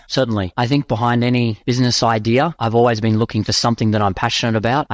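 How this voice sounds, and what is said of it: Australian accent. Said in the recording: “can y'all tell he's from Australia yet? ... I just love the accent. You love the accent.”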